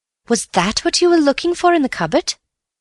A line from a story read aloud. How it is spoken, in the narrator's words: said Bill eagerly